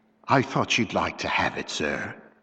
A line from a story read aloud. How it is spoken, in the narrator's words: said in a low voice